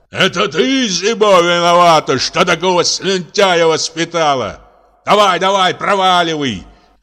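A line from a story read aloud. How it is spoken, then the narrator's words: Man shouting from above. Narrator (Russian): кричал мужчина сверху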